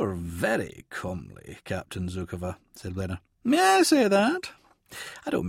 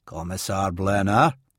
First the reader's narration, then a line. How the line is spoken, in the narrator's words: growled